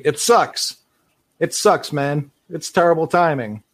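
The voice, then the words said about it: Imitates another person's voice. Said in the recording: “my Van Fleet impression. ... that's Fred, all right.”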